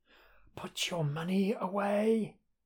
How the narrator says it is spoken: he whispers

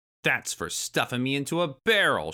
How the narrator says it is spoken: shouted

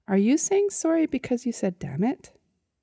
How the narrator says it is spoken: he asked sweetly

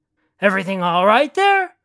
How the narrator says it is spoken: Mikhail called out

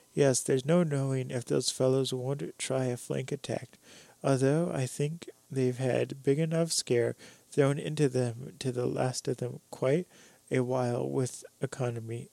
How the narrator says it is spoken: laughed Roy

